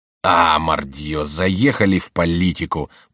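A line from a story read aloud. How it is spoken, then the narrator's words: Grumbling. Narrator (Russian): проворчал Коконна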